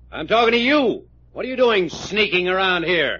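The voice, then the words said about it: Angry yelling. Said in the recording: “You yelling at me? ... Yes, I'm yelling at you. ... change your tone of voice”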